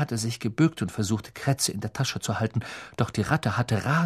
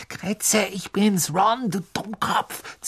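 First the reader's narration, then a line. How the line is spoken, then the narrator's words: Hissed. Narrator (German): zischte Ron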